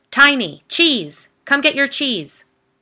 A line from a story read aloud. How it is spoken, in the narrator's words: A man's voice entered the fray, yelling from inside the house